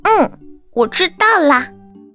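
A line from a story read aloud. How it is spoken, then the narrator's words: Loud agreement. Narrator (Chinese): 高声应和着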